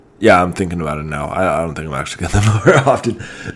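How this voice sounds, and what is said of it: Sick, congested-sounding voice. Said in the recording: “my voice sounds a little bit different today. That is because I have a cold.”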